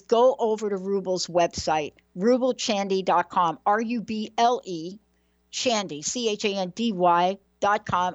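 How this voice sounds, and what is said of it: New York accent. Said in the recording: “I kind of said that with my New York accent right there.”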